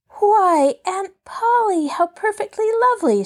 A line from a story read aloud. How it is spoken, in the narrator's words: she cried